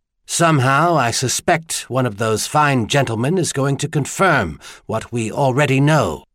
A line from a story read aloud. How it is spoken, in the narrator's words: he said